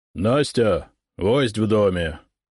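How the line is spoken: Loud deep voice. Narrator (Russian): громко пробасил сотник

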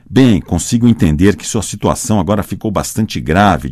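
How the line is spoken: Plain. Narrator (Portuguese): disse o inglês

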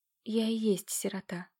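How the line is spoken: Gloomy breathed words. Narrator (Russian): выдохнула мрачно девушка

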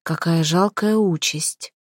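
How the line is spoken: Sighing. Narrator (Russian): вздохнула Малфрида

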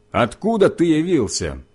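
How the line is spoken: Shouting. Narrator (Russian): Они закричали мне

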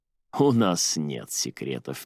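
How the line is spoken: Slow. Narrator (Russian): медленно произнес он

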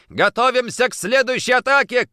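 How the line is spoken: Shout. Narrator (Russian): крикнул

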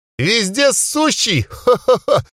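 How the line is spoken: Gurgling guffaw. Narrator (Russian): хохотал, и у него внутри что-то булькало

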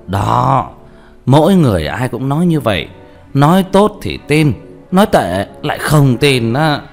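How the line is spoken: Loud laughter. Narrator (Vietnamese): Vương Đạo Kiền cười to

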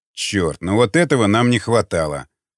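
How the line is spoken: Grumbling warrior. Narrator (Russian): проворчал варяг

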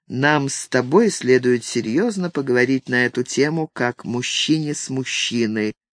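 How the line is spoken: Calm after clearing throat. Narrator (Russian): откашлявшись, спокойно произнес

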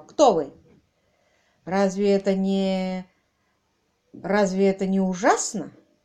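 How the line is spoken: Strained, forced out. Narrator (Russian): Выдавил партнер Лайка

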